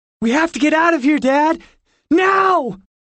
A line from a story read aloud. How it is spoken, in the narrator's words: yelled